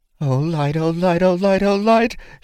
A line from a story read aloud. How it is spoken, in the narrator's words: Shara panted in panic